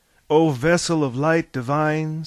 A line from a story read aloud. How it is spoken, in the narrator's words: said Harvey